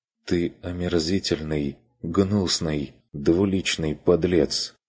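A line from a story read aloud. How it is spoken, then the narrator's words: Quiet reply. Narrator (Russian): Отозвалась та тихо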